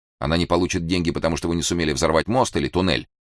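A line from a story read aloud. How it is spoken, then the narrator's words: Quick question. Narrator (Russian): быстро спросил Эраст Петрович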